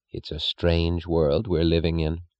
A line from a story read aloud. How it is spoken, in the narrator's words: said the spinster, her voice low